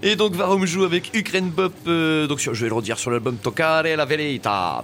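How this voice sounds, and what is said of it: Silly put-on accent. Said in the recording (French): “c'est n'importe quoi cet accent”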